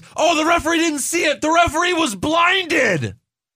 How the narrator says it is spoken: Cole yells

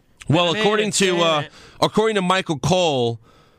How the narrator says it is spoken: he yells

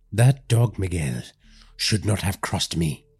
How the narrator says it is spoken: he muttered

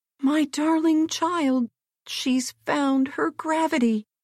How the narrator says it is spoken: her old nurse uttered a yell of delight and ran to her screaming

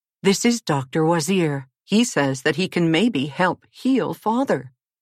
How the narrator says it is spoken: Prince Aru exclaimed

